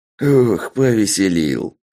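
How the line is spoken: Amused, after laughing. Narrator (Russian): сказал упырь, отсмеявшись

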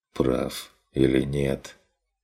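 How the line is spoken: Weary reply. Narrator (Russian): Устало откликнулся Стрик

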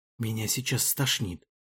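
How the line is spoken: Whisper. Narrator (Russian): шепнул Амир Карим Бхаю

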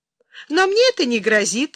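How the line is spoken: Laughing. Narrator (Russian): засмеялась Юлия

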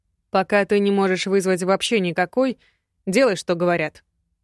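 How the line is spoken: Cold woman's voice. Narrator (Russian): холодно сказала женщина

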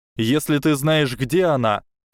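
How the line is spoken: Shouted. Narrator (Russian): крикнул Гарри сияющей фигуре

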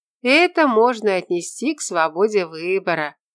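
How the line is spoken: Cheerful laugh. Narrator (Russian): весело рассмеялась Лиза

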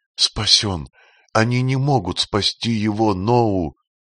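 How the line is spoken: Girl sobbing in despair. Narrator (Russian): Бедная девушка всхлипывая в порыве отчаяния

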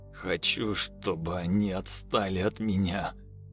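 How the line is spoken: Through gritted teeth. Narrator (Russian): процедил сквозь зубы Женя, отбиваясь от собаки

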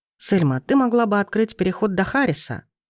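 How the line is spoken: Calm tone. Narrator (Russian): проговорил он спокойным тоном

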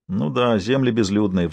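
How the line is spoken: Sighed. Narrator (Russian): вздохнул Норман

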